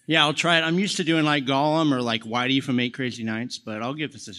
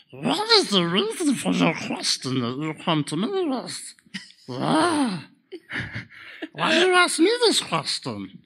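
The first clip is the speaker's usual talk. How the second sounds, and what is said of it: Gollum-like creature voice. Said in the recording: “You going to do a voice for us? ... He could sound like Gollum ... He could definitely sound like Gollum ... Really good ... That's a cool take on it”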